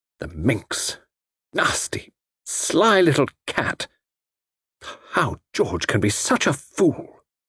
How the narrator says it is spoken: brooding, and then murmured

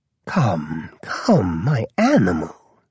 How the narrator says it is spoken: she whispered

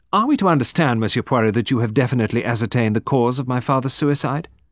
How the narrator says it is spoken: Ruth said sharply

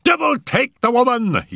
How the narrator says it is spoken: he cried

